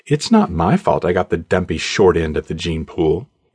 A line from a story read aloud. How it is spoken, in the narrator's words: Ariel said with a laugh